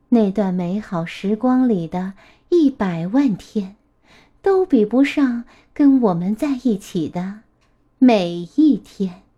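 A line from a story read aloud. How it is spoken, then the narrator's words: Soft laughing voice. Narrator (Chinese): 他笑起来，小声地说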